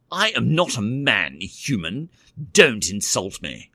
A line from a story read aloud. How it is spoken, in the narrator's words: Tinterbell snapped